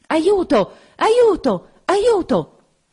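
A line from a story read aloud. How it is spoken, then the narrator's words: Muffled rapid repeated cries. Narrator (Italian): Una voce soffocata gridò tre volte rapidamente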